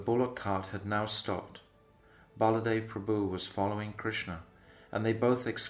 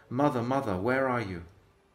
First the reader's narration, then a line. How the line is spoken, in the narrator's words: Upset, he cried out